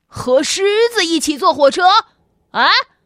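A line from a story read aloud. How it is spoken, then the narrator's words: Shocked shout. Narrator (Chinese): 售票员大叫道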